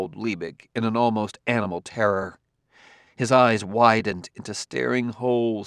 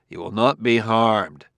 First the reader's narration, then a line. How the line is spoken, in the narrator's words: said Bailey coldly